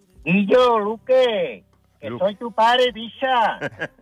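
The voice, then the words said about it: Put-on Cádiz Spanish accent. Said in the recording (Spanish): “¿cómo sería así en gaditano, con ese acento gaditano ... ¿Cómo lo dirías con tu acento gaditano?”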